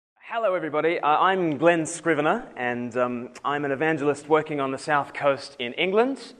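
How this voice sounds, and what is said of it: Australian accent softened by England. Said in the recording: “I'm actually from Australia originally, so my accent's a bit funny... you are from Australia, but you've been living in England for quite some time”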